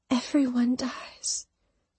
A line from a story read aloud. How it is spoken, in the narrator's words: she whispered, her eyes glossing over